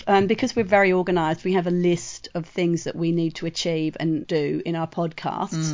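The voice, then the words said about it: Croaky, hoarse voice. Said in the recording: “you've still got your croaky voice ... Which is very sexy and a little bit hoarse.”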